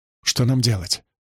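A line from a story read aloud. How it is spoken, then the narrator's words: Whisper. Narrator (Russian): прошептала Цабига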